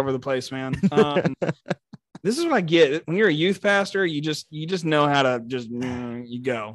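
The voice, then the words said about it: Texan accent. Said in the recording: “I sound too Texan ... I'd never be able to shed the accent ... You sound like you're from Texas”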